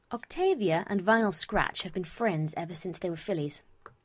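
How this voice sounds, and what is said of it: English accent. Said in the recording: “I quite like to keep something resembling my real accent ... yes, I'm English”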